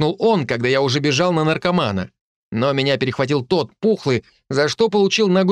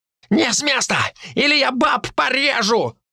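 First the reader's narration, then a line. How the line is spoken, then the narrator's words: Shrill shriek. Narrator (Russian): провизжал тот коротышка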